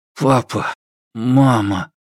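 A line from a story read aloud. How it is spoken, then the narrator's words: Strained through clenched teeth. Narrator (Russian): стиснув зубы, выдавил из себя Чэнь Чжо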